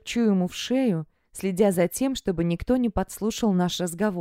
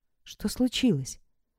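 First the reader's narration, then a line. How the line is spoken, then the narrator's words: Very quiet question. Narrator (Russian): спрашивает так тихо, чтобы слышала только я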